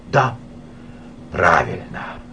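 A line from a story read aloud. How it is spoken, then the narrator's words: Relieved sigh. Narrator (Russian): облегченно вздохнул Николай Степанович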